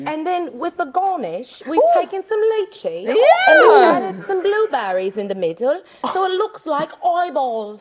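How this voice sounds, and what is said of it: Put-on English accent. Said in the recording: “That was a good accent.”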